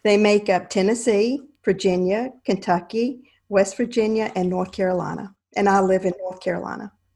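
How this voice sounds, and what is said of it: North Carolina Southern accent. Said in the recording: “Everybody's going to love your accent”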